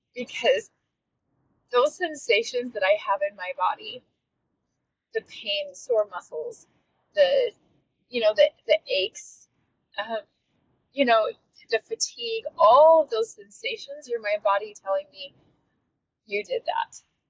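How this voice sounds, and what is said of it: Emotional, tearful speech. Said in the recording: “getting emotional about this. I'm just gonna cry through this.”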